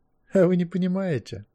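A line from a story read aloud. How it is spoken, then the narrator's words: Laughing. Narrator (Russian): Кервин Квирт рассмеялся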